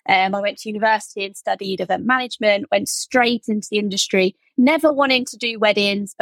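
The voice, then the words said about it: Slight rural Norfolk English accent. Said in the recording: “Love your accent ... I'm from the UK. I'm actually particularly from an area called Norfolk, so I might have a slight farmer accent”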